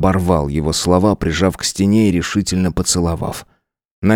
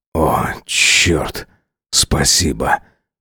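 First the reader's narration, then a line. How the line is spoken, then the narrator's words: Moan against lips. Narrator (Russian): Простонал он мне в губы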